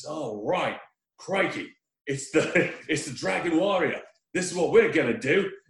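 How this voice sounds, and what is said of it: Put-on Australian accent. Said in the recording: “he's got an Australian accent ... he sounds like Steve Irwin”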